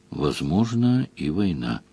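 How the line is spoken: Quiet. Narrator (Russian): Ливерлин сказал тихо

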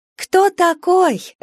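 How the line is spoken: Happy laughter. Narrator (Russian): рассмеялась Валя, и смех был счастливым

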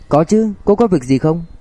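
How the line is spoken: Smiling. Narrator (Vietnamese): Bạch Tiêu Tiêu mỉm cười

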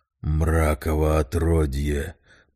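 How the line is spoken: Hiss. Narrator (Russian): прошипел страж

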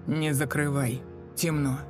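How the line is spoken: Hoarse reply. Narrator (Russian): Прохрипела в ответ

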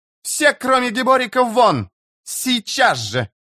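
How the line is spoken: Suddenly loud, echoing voice. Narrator (Russian): Голос Шаик неожиданно громко прозвучал в зале

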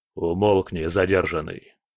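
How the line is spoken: Growled. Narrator (Russian): рыкнул Дмитрий

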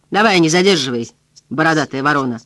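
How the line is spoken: Barking shout. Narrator (Russian): гаркнул билетер

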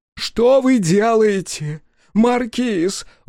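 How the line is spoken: Horrified yelling. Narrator (Russian): в ужасе вопил Ки Атен, выглядывающий через щели своей личной тюрьмы-крепости

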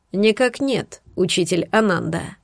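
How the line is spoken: Even-toned reply. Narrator (Russian): ответил он ровным тоном

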